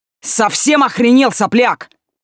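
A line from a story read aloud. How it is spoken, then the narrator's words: Screaming at top of lungs. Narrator (Russian): заорал он благим матом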